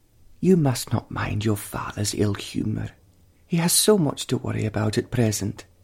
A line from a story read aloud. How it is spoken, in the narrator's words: she said, tenderly